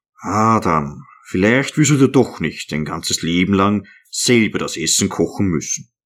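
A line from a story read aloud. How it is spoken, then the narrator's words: Contented soft murmur. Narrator (German): von der Hitze gerötetes Gesicht immer zufriedener und glücklicher wurde, sagte er ganz leise vor sich hin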